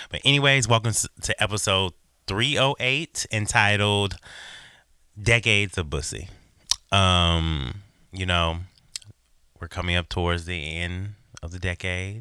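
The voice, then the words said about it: Tired, congested voice with a cold. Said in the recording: “I'm tired. If y'all can't tell, I have a cold.”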